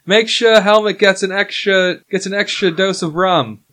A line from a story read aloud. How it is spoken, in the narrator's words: She shouts